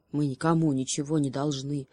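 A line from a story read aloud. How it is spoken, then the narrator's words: Grumbling hedgehog. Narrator (Russian): проворчал еж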